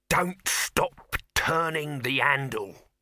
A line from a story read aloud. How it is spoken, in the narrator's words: Dibbler saying, in a voice hissing like a thrown knife